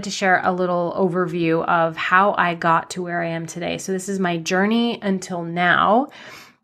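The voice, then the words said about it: Slightly nasal voice. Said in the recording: “my voice might sound a little funky too. I'm just on the tail end of a cold. So it feels like I'm a little nasally”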